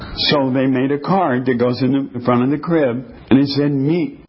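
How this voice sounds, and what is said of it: Usual voice. Nothing is said of it.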